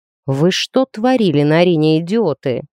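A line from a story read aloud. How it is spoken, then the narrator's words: Growling. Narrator (Russian): прорычал он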